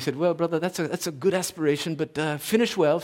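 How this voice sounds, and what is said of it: British accent. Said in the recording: “he said in this British accent”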